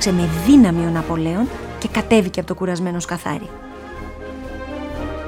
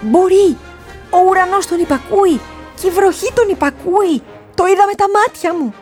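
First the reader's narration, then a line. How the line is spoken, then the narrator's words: Beetle shouting. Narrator (Greek): φώναξε το σκαθάρι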